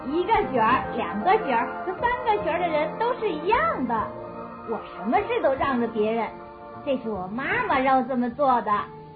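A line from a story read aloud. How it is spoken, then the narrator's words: Light laugh. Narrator (Chinese): 刚刚拍拍晶晶的肩头笑了一下说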